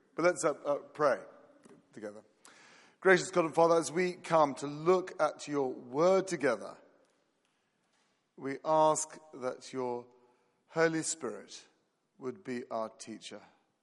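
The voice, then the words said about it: Croaky, strained voice. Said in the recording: “sorry if my voice goes a bit... My voice is a little bit croaky.”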